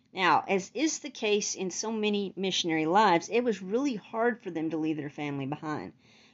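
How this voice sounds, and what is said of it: Texan accent. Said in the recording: “my Texan accent”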